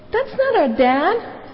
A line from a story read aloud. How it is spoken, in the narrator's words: Charlie exclaimed